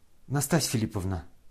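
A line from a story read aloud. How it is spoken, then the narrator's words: Quiet, compassionate. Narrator (Russian): сказал князь, тихо и как бы состраданием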